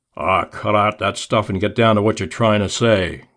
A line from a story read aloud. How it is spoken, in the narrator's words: growled Blackie